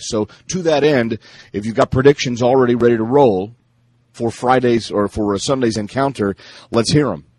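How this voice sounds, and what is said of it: Deepened voice from a cold. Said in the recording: “You fighting a cold there? ... it deepens your radio voice ... one of these sore throat things”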